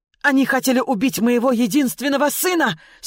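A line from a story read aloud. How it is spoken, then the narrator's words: Shouting again. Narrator (Russian): снова закричал предатель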